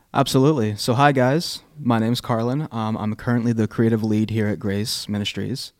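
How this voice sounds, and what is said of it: Polished radio announcer voice. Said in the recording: “a great radio voice”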